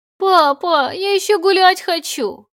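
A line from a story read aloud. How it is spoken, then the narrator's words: Whining little girl. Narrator (Russian): хныкала девочка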